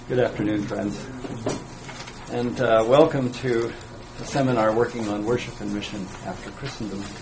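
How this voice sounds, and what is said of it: American accent. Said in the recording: “We are Americans, as you can tell by my accent”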